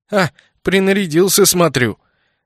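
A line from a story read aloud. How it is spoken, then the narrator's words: Smirking snort. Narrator (Russian): хмыкнул Кайл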